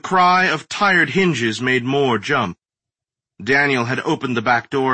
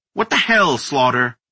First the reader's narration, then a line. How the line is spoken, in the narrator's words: Moore snapped